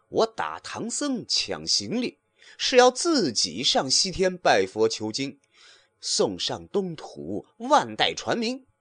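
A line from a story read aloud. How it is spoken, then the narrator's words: Cold chuckling. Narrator (Chinese): 行者呵呵冷笑道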